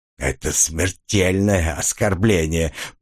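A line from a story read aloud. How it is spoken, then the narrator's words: Hissed through teeth. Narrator (Russian): прошипел сквозь зубы птичка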